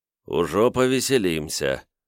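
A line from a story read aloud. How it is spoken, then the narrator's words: Grim smirk. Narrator (Russian): мрачно усмехнувшись, Любард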